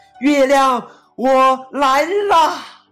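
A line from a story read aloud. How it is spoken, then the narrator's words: Loud shout. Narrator (Chinese): 大声一喊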